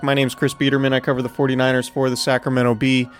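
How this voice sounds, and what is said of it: Tired-sounding voice. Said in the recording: “Do I sound tired? ... because I am tired. ... Yeah, no, it sounds like it.”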